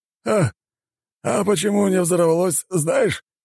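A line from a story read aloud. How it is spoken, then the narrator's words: Chuckling loudly. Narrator (Russian): хохотнул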